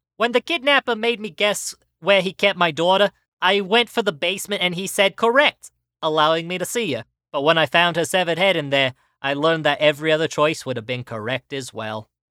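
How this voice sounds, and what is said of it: Bad Joey Wheeler impression. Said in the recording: “said in a bad Joey Wheeler voice ... my Joey Wheeler impression”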